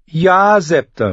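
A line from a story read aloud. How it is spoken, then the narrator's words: Calling out. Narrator (German): rief sie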